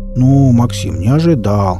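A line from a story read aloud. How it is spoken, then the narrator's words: Offended drawl. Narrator (Russian): обиженно протянул Энд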